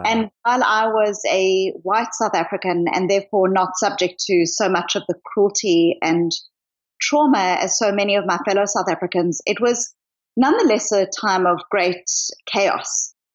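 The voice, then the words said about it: Mixed South African accent. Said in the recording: “I hear a bit of an accent from you ... I am originally from South Africa, but I've lived in Australia, New Zealand ... and I'm now in Boston. So it's not a simple accent.”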